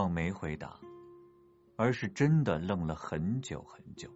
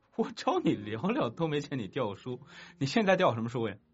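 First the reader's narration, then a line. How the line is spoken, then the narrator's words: Laughing. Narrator (Chinese): 赵熙没忍住笑了出来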